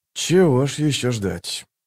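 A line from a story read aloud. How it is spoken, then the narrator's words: Mutter. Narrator (Russian): пробормотал он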